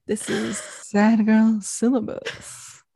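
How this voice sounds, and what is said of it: Late-night radio host voice. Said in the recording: “late night radio voice ... late night radio people sound like that because they're tired”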